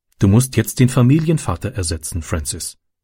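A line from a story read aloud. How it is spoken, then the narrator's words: Plain. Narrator (German): sagte sie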